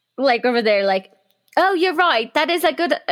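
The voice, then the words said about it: Poor attempt at British accent. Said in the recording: “my British accent's obviously terrible”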